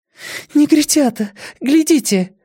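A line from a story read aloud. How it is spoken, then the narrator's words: Sudden cry. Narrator (Russian): вскрикнула она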